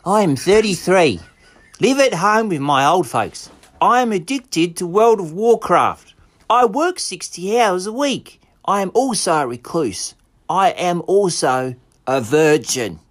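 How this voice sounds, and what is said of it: Performed character voice. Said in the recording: “I'll do his voice as well... your characterization was spot on.”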